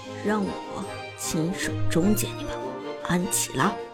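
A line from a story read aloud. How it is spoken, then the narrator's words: Calm, deep voice. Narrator (Chinese): 苏哲淡然一笑，沉声说道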